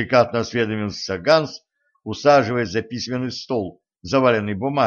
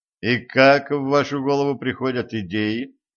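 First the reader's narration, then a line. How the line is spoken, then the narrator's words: Gloomy question. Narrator (Russian): мрачно спросил Денис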